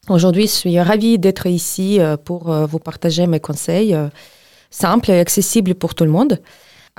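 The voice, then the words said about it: Ukrainian accent speaking French. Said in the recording (French): “je suis ukrainienne, j'habite en France depuis 15 ans, d'où vient mon accent.”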